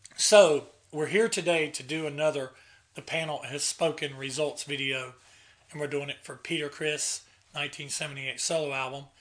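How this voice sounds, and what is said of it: Raspy, hoarse sick voice. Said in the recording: “I've been sick ... I could barely speak above a whisper ... I was going to have my best raspy voice”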